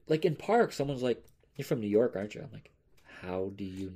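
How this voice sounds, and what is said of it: Slight New York accent. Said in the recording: “New York City has an accent... I do kind of have an accent... Yes, you do have a slight accent... It's not very abundant, but it is there.”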